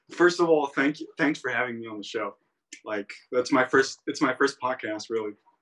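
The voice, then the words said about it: European speaker with fake American accent. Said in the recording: “You have that intercontinental European English ... It's a fake American accent.”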